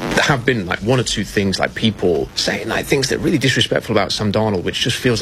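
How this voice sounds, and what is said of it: British accent. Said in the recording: “somebody from across the pond ... someone with a great accent”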